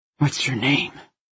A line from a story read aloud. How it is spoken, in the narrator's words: Everett leaned down, his drunken breath whispering across my cheek